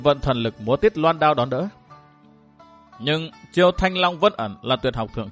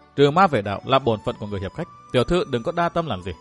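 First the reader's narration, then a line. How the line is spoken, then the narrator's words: Gentle. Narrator (Vietnamese): Kỳ Lan dịu dàng bảo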